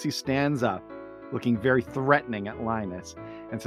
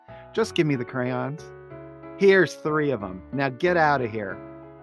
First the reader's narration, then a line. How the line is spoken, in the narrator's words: Linus, calmly and with a huge smile on his face, says